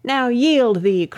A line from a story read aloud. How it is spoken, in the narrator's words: cried Lars Porsena